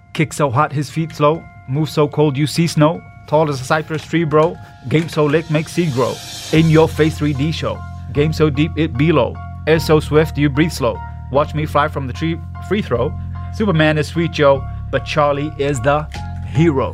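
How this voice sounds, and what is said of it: Put-on American accent, rapping to beat. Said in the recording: “you're going to hear my faultless American accent”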